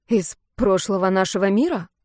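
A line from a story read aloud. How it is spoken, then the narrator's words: Snort. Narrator (Russian): Голос хмыкнул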